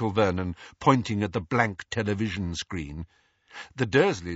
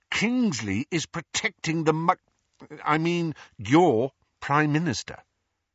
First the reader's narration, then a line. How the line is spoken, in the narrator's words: he said through gritted teeth